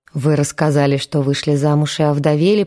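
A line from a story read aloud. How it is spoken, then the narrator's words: Mumbling. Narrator (Russian): промямлил Гена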